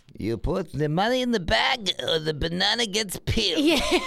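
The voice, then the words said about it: Put-on Russian accent. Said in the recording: “What kind of accent was that? ... That was my Russian accent.”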